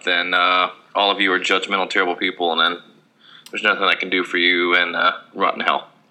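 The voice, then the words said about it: Rough voice from throat trouble. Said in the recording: “I've got some weird thing in my throat, so my voice is kind of fucked up.”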